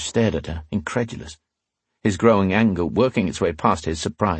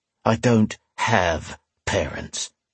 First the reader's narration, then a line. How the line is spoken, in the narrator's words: he growled